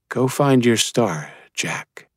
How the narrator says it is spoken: she whispered

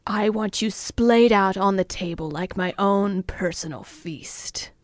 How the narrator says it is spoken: he growled

